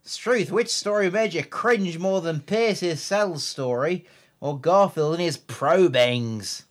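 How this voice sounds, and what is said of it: Put-on Australian accent. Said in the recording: “That's Australian. Don't know where that went. ... Central, Central Australian.”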